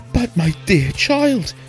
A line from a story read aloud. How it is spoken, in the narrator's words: she cried